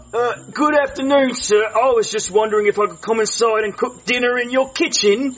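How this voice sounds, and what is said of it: British accent. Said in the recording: “I love your accent. Where are you from? ... The UK.”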